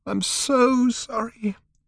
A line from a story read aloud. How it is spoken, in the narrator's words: she said again, sobbing